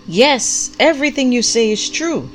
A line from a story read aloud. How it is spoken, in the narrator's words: the prophet called out with equal vigor